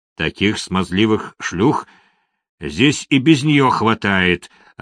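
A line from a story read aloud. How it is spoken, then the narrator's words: Booming grumble, warden. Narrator (Russian): раскатистым голосом проворчал надзиратель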